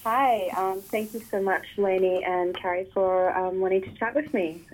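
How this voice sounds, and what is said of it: Australian accent. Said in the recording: “getting that Australian accent into podcast ears”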